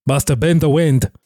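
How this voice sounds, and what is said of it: Put-on Nord video game accent. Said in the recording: “You do that too well. ... It's such a bizarre accent. The Skyrim accent, the like Nord accent that they do.”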